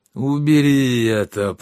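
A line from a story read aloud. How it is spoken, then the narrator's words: Groaning. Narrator (Russian): простонал Щавель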